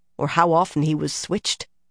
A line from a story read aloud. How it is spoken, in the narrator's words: Nynaeve muttered